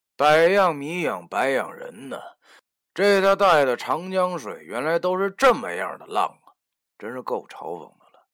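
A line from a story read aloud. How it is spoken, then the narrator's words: Sighing exclamation. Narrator (Chinese): 我不禁感叹道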